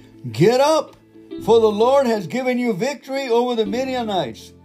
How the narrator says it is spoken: shouted

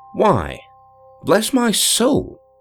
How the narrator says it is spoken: I exclaimed, feeling a sharp artistic delight

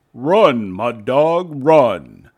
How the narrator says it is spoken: the one nearest his nose cried out

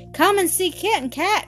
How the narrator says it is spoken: she cried

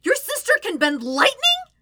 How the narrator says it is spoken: Sokka shouts, his tone bordering on hyperventilation

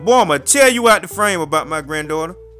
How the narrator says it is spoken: He started yelling

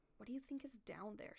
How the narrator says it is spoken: She murmured

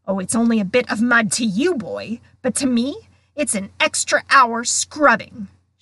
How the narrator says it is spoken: shouted, a drip shivering unpleasantly at the end of his bulbous nose

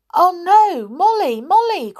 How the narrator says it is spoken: cried Peter in alarm

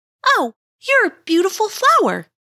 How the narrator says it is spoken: she exclaimed

